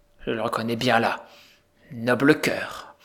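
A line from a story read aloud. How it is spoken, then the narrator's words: Unhappy father murmuring. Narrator (French): murmura le malheureux père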